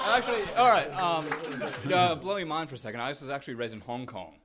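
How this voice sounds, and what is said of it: British English accent. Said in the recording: “are you actually British ... they basically enlisted British people to come down, teach us the accent.”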